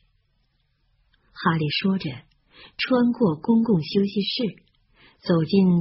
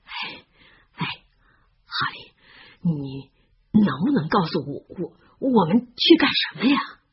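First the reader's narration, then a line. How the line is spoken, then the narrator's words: Slightly breathless. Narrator (Chinese): 洛恩微微有点气喘，他说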